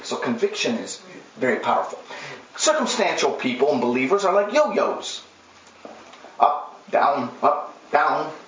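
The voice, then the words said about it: Accented English, possibly fast. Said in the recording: “Am I talking too fast with my accent?”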